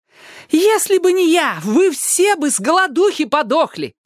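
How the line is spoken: Mother yelling. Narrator (Russian): вопила мама

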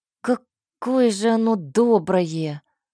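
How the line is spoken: Grumbled. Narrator (Russian): пробурчал Кей

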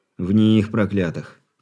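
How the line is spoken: Heavy worried sigh. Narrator (Russian): тяжело вздохнул Варакин, ничуть не стараясь скрыть своей обеспокоенности

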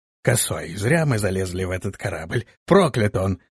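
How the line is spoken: Tipsy grumbling. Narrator (Russian): проворчал подвыпивший парень

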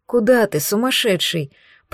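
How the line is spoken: Moan. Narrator (Russian): Простонала я

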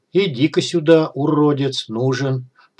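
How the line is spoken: Whispered. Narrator (Russian): Прошептав это

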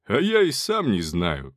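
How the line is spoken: Chuckling. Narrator (Russian): хохотнул Агафоныч

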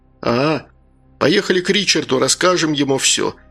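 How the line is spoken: Plain. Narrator (Russian): сказал Джон

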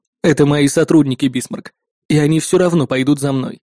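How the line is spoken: Plain. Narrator (Russian): ответил

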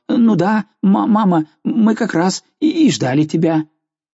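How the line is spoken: Flustered babbling. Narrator (Russian): Совсем потеряв голову, он лепетал

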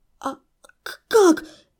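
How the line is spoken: Stammering in fear. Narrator (Russian): заикаясь и трясясь от страха, выдавила я

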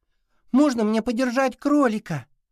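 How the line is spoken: Joyful squeal. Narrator (Russian): радостно запищала

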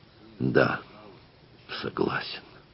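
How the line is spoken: Forced out with effort. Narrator (Russian): наконец, с великим трудом выдавил из себя стратик

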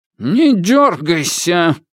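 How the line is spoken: Growl. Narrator (Russian): прорычала

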